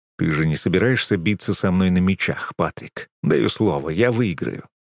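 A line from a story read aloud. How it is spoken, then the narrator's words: Calm. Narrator (Russian): спокойно произношу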